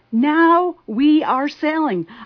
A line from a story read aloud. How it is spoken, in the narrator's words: I yelled with extreme delight